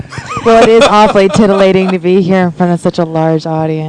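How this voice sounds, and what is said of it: Exaggerated radio announcer voice. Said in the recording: “This is my radio voice.”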